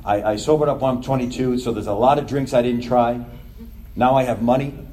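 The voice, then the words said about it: New York accent. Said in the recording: “they hear your accent. They're like, where are you from? I'm like, New York.”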